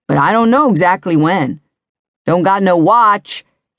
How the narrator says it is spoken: he added in a yell because Scarlett had already started to run

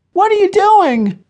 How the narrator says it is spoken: cried Becca

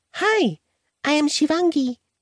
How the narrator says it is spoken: squeaked

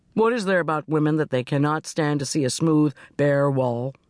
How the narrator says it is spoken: he grumbled

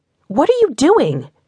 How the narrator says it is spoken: she yelled at the two fighters

